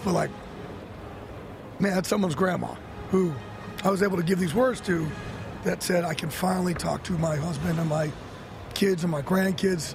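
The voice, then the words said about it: Choked-up, emotional voice. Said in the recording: “You see me get, you know, a little choked up saying this”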